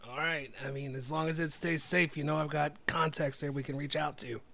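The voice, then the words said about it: Inconsistent character voice, New Jersey-ish. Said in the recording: “this character voice is all over the place... I think I'm from New Jersey at this point”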